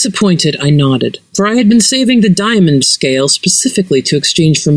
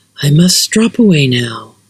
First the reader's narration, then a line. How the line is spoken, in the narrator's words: Levante sighed in a voice like young frogs